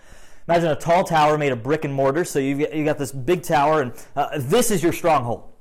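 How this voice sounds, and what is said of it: Strained, worn-out voice. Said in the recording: “my voice just killed me this morning”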